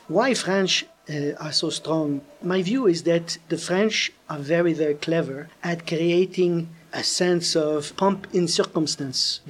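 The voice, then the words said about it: French-accented English. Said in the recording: “you can hear my French accent. I'm from Canada”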